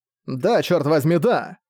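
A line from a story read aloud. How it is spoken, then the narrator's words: Irritated blurt. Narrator (Russian): Раздраженно выпалил Зак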